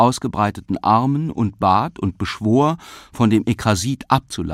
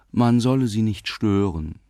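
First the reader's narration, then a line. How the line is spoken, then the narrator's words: Gentle, smiling. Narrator (German): sagte Trebitsch, sanft und lächelnd wie immer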